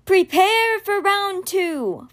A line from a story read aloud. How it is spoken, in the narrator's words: Florence shouted